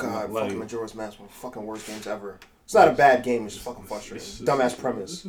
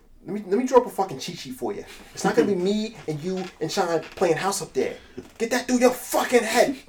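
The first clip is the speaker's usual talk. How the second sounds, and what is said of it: Strong put-on accent quoting movie. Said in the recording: “that accent is crazy”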